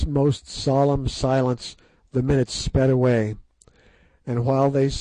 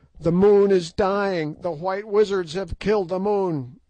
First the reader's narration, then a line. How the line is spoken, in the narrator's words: yelled the Prince Scragga